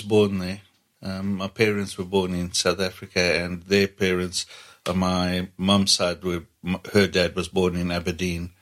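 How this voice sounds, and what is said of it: Non-local accent. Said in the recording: “I can tell from your accent that you're not from around here.”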